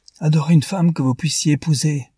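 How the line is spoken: Exclaimed. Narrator (French): s'écria Newman

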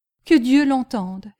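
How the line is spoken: Crying out, sobbing. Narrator (French): s'écria Miss Pross avec un redoublement de sanglots

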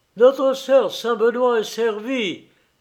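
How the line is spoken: Sudden shout. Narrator (French): cria tout à coup Karl Massouligny

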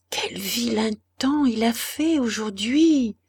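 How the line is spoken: Young man murmuring. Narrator (French): murmurait le jeune homme

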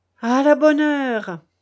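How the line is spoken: Cheerful exclamation. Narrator (French): s'écria le comte gaiement

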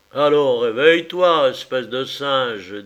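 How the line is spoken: Gruff. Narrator (French): dit Malcolm d'un ton bourru

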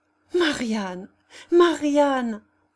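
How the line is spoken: Anguished exclamation. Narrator (French): s'écria en tombant aux genoux de sa filleule

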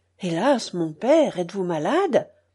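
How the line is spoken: Bewildered cry. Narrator (French): s'écria André, qui ne comprenait rien à son angoisse

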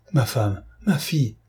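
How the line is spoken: Startled cry. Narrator (French): s'écria Cloarec en tressaillant

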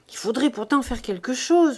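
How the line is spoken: Murmur. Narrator (French): murmura-t-elle

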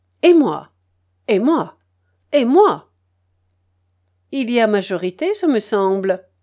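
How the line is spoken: Very animated tone. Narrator (French): dit Lucien d'un ton fort animé

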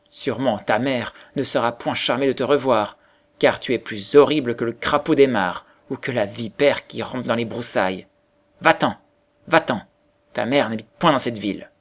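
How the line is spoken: Mocking exclamation. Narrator (French): ils se moquèrent de lui, et l'un d'eux s'écria

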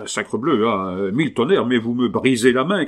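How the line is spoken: Shouted. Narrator (French): cria-t-il

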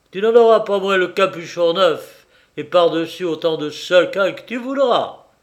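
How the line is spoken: Shouting from afar. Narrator (French): Il lui cria à distance

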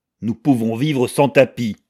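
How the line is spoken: Harsh tone. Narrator (French): répondit Sheldon d'un ton dur

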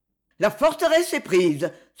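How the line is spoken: Cheerful exclamation. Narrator (French): s'écria-t-il gaiement

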